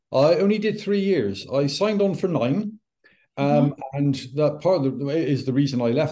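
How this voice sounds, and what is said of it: British regional accent. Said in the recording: “from the UK. Not too far from where I grew up. It's an accent I fully remember.”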